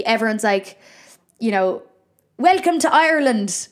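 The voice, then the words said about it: Exaggerated put-on Irish accent. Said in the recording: “Why am I putting on an Irish accent when I'm Irish?”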